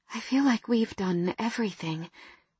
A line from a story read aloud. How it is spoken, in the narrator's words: I murmured